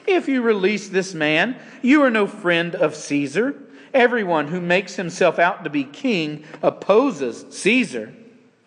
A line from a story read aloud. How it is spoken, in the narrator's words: the Jews cried out, saying